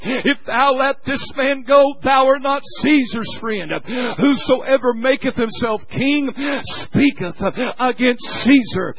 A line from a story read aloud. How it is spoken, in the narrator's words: the Jews cried out, saying